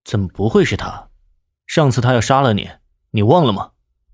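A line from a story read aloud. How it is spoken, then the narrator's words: Deep, grave voice. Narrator (Chinese): 南离川沉声道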